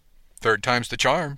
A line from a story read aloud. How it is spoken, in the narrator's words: said brightly